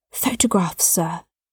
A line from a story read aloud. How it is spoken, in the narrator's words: she whispered